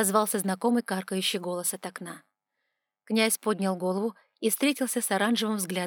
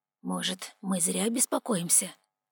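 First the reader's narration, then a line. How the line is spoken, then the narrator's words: Whisper. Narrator (Russian): прошептал он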